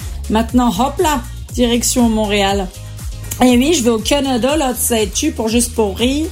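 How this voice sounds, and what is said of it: Approximate put-on accent. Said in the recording (French): “cet accent approximatif”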